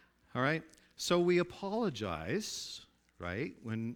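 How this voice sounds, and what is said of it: Usual voice. Nothing is said of it.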